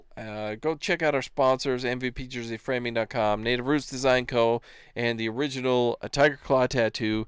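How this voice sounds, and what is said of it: Running out of breath. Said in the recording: “I ran out of breath there.”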